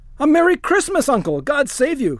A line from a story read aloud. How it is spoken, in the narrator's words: cried the cheerful voice of Scrooge's nephew